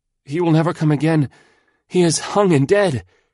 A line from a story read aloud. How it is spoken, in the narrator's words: He gasped out between his breaths